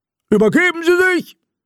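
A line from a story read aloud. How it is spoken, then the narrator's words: Roaring. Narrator (German): brüllte einer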